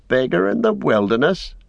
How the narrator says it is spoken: he mocked

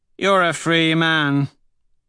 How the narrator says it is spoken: Severo slurs

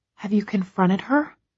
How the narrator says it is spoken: I whisper, not sure if I really want to know

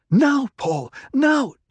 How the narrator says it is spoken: Jessica screamed it in her mind

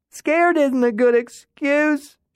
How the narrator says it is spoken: she shouted into the couch

